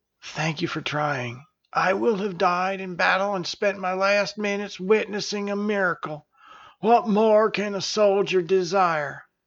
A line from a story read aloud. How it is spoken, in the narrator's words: General Jeremy whispered